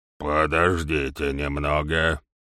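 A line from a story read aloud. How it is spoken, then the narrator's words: Growling. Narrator (Russian): прорычал доктор Фелл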